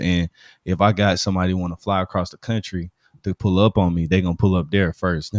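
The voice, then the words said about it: Southern Alabama accent. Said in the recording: “You hear my voice, bro. I'm not country. I'm just Southern, but like you hear the Alabama in my accent.”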